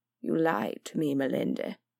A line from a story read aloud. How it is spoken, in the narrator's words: Davriel said softly